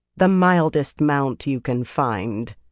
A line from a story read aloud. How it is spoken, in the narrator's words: she said in a flat voice